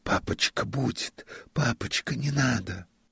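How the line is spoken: Embarrassed schoolboys whispering. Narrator (Russian): братья Ани, Петя и Андрюша, гимназисты, … шептали сконфуженно

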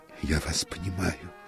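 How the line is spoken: Breathless mutter. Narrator (Russian): пробормотал техник, тяжело дыша

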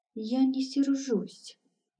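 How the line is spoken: Barely audible hen whisper. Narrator (Russian): едва слышно прошептала курица, которая очень не любила скандалы и разборки

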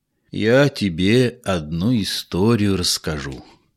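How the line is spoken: Quiet, old man. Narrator (Russian): негромко стал рассказывать мой дед

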